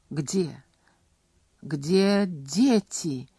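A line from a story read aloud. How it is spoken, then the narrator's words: Distraught, forced out. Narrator (Russian): не владея собой, выдавила она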